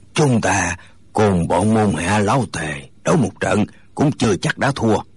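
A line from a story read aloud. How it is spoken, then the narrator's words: Hoarse, resentful voice. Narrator (Vietnamese): Người nói tiếng khàn khàn dường như không phục, gã nói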